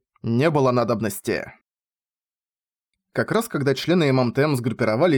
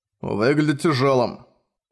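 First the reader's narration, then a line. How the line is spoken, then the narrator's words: Grumbling. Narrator (Russian): проворчал Болт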